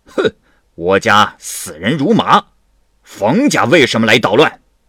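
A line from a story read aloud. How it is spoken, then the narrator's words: Loud roar. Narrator (Chinese): 大吼一声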